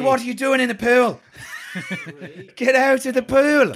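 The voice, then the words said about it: Put-on Irish accent. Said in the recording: “you can imagine her saying Ray with an Irish accent... Can you give us an Irish Ray?”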